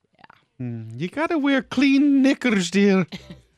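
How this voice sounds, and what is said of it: Mrs. Doubtfire Scottish-English accent impression. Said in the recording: “you thought it was an English accent ... I said it was Scottish, but then I realized it was Mrs. Doubtfire”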